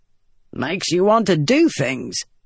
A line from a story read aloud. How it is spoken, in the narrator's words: Gaz said with a grunt